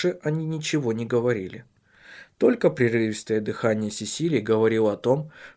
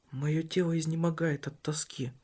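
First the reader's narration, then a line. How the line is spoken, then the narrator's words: Barely audible. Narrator (Russian): еле слышно произнесла она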